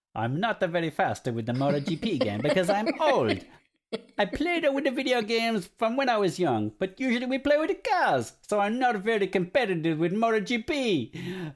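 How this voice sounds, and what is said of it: Attempted Italian accent. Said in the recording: “I apologize, I can't do an Italian accent.”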